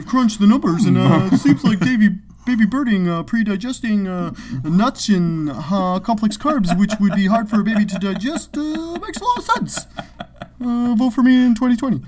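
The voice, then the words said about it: Imitates another person's voice. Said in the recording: “great Zuck impression ... That was actually pretty accurate ... Like a mannequin come to life, kind of.”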